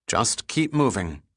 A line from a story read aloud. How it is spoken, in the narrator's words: Pitt replied